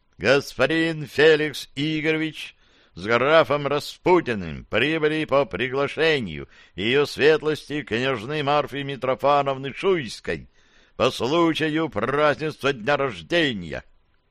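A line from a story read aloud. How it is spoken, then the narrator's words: Booming announcement. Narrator (Russian): Зычным голосом оповестил собравшихся дядька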